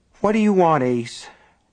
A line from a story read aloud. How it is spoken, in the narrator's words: Nat Copeland repeated wearily